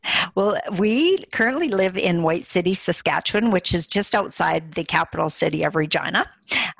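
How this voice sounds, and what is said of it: Regional accent, not Los Angeles. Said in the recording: “adorable accent is clearly not from Los Angeles”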